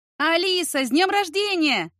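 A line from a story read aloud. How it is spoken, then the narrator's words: Crowd shouting in unison. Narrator (Russian): хором закричали гости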